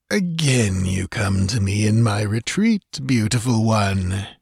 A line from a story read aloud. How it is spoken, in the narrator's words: he purred with cynical hypocrisy